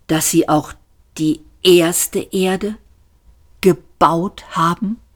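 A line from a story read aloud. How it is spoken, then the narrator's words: Slow, deliberate. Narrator (German): sagte Arthur langsam und bedacht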